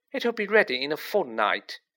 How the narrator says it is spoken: she said happily

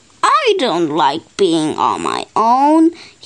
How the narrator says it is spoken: he grumbled

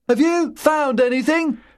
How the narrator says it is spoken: Lewis shouted

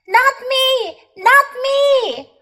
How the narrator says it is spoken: cried the man

